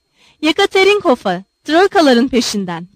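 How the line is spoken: Shouting. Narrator (Turkish): diye bağırdığını

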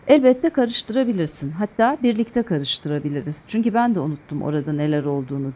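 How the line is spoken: Plain. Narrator (Turkish): dedi Fırat

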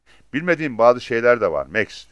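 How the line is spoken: Plain. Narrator (Turkish): dedi

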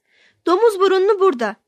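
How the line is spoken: Shouting. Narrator (Turkish): diye bağırırlardı

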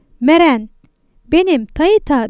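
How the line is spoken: Shouted. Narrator (Turkish): diye bağırdı

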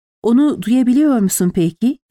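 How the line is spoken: Trembling voice. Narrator (Turkish): diye sordu titreyen bir sesle

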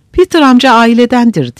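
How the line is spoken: Trembling voice. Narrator (Turkish): Scarlett, Yankee kadınlarına titrek bir sesle

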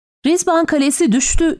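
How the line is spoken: Shouted over the noise. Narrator (Turkish): diye bağırdım gürültüler arasında

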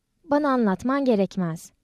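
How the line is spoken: Plain. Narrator (Turkish): dedi

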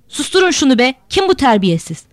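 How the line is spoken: Madman shouting. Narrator (Turkish): Bağıran deli mimardı

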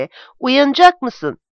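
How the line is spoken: Shouting. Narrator (Turkish): diye bağırdı

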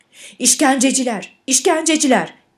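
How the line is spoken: Shouting. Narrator (Turkish): diye bağırdı

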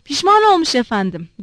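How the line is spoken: Shouting. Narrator (Turkish): diye bağırdı

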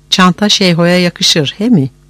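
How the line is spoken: Laughing. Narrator (Turkish): Şıran yine güldü

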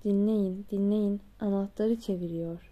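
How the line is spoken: Plain. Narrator (Turkish): dedi

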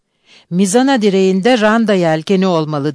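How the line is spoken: Cried out. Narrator (Turkish): diye haykırdı

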